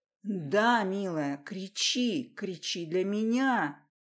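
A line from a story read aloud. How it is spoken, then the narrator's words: Growling. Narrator (Russian): Рычал он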